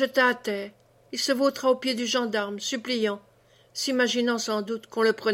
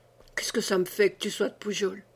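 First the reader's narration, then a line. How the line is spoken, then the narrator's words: Murmuring. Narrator (French): murmura Rengade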